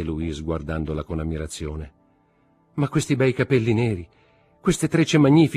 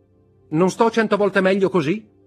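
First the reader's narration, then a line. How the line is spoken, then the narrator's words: Shouting. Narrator (Italian): gridò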